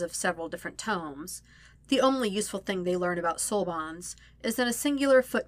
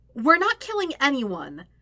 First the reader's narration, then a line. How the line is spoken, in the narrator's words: Aang says loudly